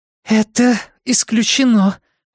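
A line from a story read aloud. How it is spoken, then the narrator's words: Hoarse, wheezy voice. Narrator (Russian): сипло проговорила Энея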